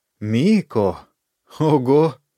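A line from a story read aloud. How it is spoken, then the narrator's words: Laugh, then pained groan. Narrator (Russian): засмеялся, но тут же охнул от боли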